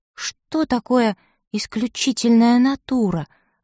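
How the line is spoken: Timid question. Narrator (Russian): робко спросила

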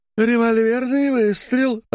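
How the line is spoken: Joyful shout. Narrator (Russian): радостно крикнула мисс Дульси Диммер

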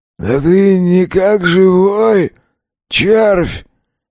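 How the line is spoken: Hoarse voice from left. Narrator (Russian): Раздался хриплый голос откуда-то слева

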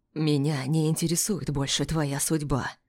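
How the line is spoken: Husband's whisper. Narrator (Russian): прошептал муж

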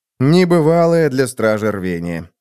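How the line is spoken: Wry snort. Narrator (Russian): хмыкнул я

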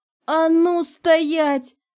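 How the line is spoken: Yelling old man. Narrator (Russian): завопил дед Павле

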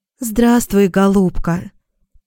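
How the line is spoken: Affectionate. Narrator (Russian): обратилась она ко мне ласково

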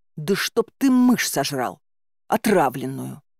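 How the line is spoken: Hissed through teeth. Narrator (Russian): Сквозь зубы прошипела

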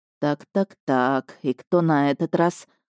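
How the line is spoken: Mumbling. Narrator (Russian): пробормотал он

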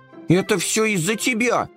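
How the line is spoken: Shouted. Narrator (Russian): закричал Компот

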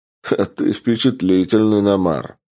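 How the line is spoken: Man's laughing remark. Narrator (Russian): хохотнул подошедший мужчина

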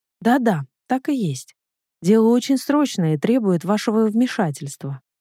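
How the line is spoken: Plain. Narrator (Russian): ответила мисс Эш

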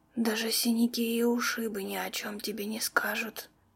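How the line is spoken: Whispered. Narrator (Russian): прошептала незнакомка

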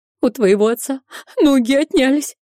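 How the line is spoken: Sobbing over the phone. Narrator (Russian): прорыдала она в трубку

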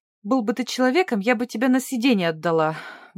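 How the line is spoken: Breathless exhale. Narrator (Russian): выдохнула Джин

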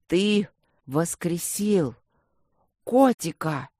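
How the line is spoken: Strained, forced out. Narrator (Russian): с великим трудом выдавил ушастый

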